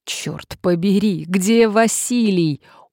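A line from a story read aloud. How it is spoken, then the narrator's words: Groaning with sighs. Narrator (Russian): охая простонал он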